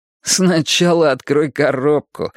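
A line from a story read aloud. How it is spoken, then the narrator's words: Laughing. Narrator (Russian): засмеялся Йоханнес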